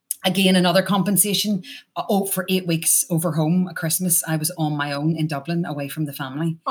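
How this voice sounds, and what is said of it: Irish accent with slight Canadian twang. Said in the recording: “This little Canadian, you know, Canadian twang you can hear now and again ... two other Irish people”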